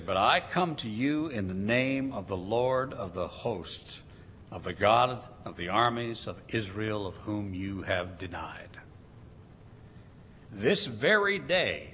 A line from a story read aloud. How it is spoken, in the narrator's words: says David